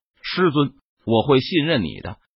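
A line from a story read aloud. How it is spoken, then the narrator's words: Calm soft voice. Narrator (Chinese): 陈宇脸色淡然，他开口轻声说道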